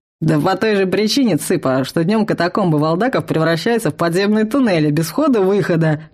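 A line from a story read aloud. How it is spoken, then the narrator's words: Chuckling. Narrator (Russian): хохотнул тролль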